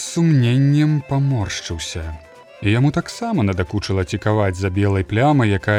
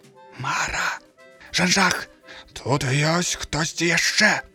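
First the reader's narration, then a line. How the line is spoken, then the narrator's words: Whispering. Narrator (Belarusian): Шапнуў ён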